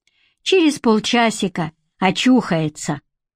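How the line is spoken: Calm. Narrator (Russian): спокойно сказал Голубев

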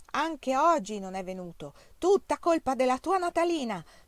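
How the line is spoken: Father thundering from corridor. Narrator (Italian): tuonava mio padre dal corridoio

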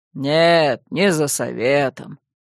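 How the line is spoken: Deep bass voice. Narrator (Russian): пробасил Карачун

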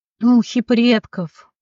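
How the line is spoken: Growl. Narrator (Russian): прорычал он

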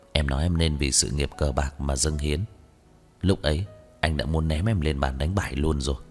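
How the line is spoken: Hoarse voice. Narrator (Vietnamese): Dư Y run rẩy, anh khàn giọng

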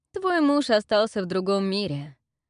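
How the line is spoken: Mocking chuckle. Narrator (Russian): хохотнул негодяй

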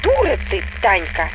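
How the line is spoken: Barked. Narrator (Russian): рявкнула Светка

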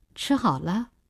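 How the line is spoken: Cold question. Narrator (Chinese): 林星冷冷地问

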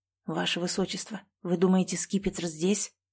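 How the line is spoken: Whispered. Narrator (Russian): прошептал я

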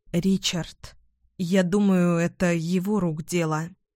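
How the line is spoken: Trembling voice. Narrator (Russian): дрожащим голосом ответила я

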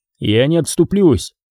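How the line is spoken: Rough, curt. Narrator (Russian): грубо отрезал Крис

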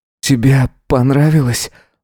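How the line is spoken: Breathed out. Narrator (Russian): выдохнул он

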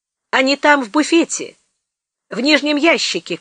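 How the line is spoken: Shout through open door. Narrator (Russian): крикнул в раскрытую дверь Успенский

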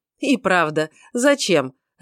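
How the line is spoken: Laughing. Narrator (Russian): рассмеялся Эрингтон

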